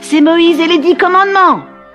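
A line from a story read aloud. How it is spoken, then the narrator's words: Small boy shouting. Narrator (French): cria un petit garçon dans la foule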